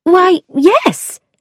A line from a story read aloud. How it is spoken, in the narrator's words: I cried